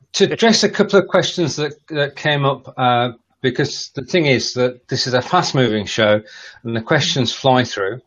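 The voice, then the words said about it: British accent. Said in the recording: “British ... England ... British accent ... I can't help the accent.”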